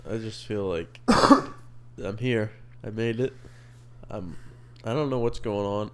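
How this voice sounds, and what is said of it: Congested, stuffed-up voice. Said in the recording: “allergies are just kicking my ass right now. ... I'm all stuffed up.”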